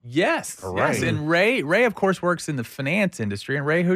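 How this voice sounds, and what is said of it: Usual voice. Nothing is said of it.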